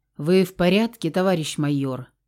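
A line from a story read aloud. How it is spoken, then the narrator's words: Gloomy question. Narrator (Russian): мрачно спросил Зацепин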